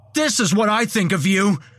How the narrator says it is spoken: yelled

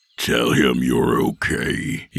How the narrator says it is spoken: he growled

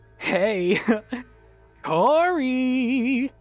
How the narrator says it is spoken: Danny giggled, her smile returning and bordering on maniacal

